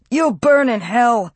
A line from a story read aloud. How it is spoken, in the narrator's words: the woman shouted